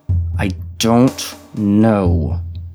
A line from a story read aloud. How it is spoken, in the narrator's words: he said through gritted teeth